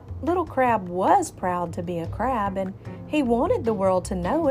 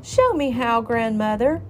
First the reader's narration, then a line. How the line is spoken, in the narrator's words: he cried